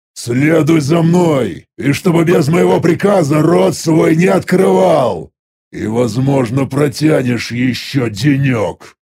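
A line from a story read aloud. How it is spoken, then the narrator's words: Angry demon growl. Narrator (Russian): Рыкнул зло демон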